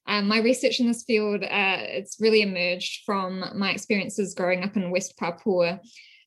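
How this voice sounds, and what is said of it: New Zealand accent. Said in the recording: “as you might be able to tell from my accent, I'm originally from New Zealand”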